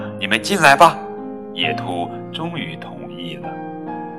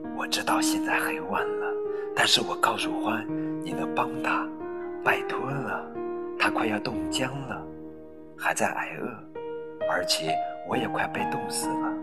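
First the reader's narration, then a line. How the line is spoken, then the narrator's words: Whispering small mouse. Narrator (Chinese): 小老鼠悄声说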